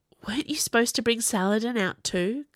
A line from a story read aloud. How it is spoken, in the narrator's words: Kai whispered